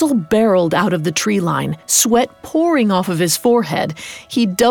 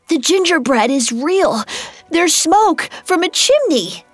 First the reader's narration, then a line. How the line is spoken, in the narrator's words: Between gasps, he explained